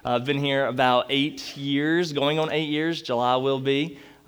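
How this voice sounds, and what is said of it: North Carolina accent. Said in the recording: “The accent is from North Carolina.”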